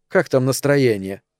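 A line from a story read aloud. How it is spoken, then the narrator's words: Cold question. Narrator (Russian): холодно спросила Эльза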